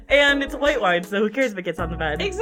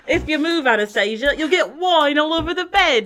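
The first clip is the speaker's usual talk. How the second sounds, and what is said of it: Put-on British accent. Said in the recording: “So British accent. ... It's brilliant.”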